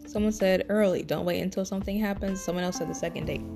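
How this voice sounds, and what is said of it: Tired, slightly raspy voice. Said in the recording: “my voice is getting tired. And when my voice gets tired, it gets a little raspy.”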